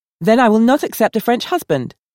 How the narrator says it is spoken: Valda asserted sharply

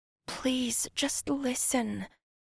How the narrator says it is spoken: she whispered into his ear

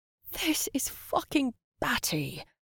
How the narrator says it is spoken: she groaned

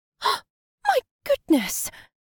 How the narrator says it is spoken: Caroline gasped

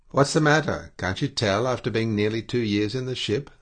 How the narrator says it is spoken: I addressed him sharply

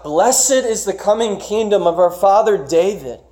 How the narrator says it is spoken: The crowd shout

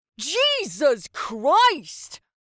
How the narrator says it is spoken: Seb shrieked with a full-body jolt

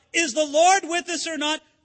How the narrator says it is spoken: the people who cried out

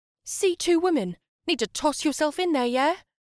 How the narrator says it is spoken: the barista shouted from afar with an air of obligation

